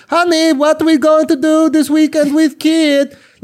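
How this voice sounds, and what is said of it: Imitates another person's accented voice. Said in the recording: “goofy ass accent... It is a stupid accent... putting up with that fucking accent on a daily basis... just imagine hearing that”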